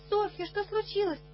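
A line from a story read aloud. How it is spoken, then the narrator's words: Frightened, then relieved. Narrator (Russian): Это испуганно, а потом с облегчением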